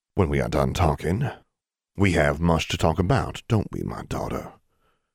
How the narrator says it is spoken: Abraham Thorne paused, then said, a little stiffly

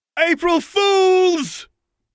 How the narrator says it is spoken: He yelled in a voice that sounded less like a goblin and more like that of Theo No-Name

